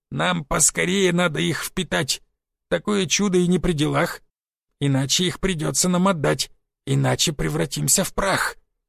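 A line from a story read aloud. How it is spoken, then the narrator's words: Breathed out. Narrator (Russian): выдохнул Гоб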